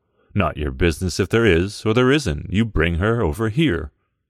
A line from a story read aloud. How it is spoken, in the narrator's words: Jubal said